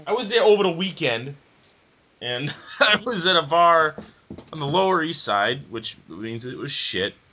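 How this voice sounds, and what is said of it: Thick Chicago accent. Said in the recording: “my Chicago accent comes out super thick ... it sounds funny that you were there over the weekend”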